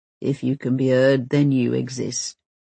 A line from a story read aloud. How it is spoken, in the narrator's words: mutters hungover Bank